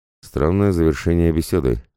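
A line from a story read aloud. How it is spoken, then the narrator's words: Snort. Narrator (Russian): хмыкнул Виктор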